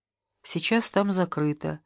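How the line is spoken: Soft reply. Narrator (Russian): мягко ответила медсестра

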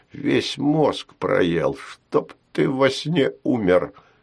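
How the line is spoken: Spiteful, cold muttering. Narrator (Russian): мгновенно остывал лицом и злобно говорил

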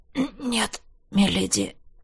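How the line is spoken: Hoarse breathy. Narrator (Russian): хрипло выдохнул

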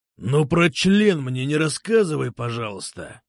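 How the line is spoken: Growl. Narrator (Russian): рыкнул Ширей

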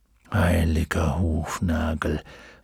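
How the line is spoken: Muttered while straining up. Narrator (German): murmelte, während er versuchte, sich aufzurichten

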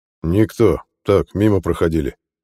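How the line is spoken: Deep bass voice. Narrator (Russian): пробасил Дакхут

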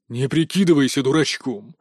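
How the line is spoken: Growl. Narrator (Russian): прорычал Тигров

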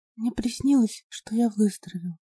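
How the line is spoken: Barely audible child's whisper. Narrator (Russian): еле слышно прошептал мальчик

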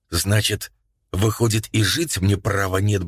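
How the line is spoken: Muttering. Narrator (Russian): бормотал

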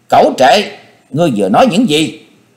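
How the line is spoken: Near-screaming. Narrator (Vietnamese): Quyết Lan đồng tử nói như thét

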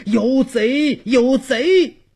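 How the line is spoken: Shouting while running. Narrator (Chinese): 边喊边跑出门外

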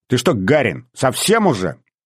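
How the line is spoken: Angry hiss. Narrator (Russian): Девушка зашипела рассерженной кошкой

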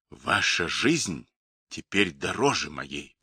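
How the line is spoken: Whisper. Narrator (Russian): прошептал он

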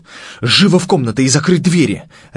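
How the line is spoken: Barked command. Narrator (Russian): рявкнул Дрейер

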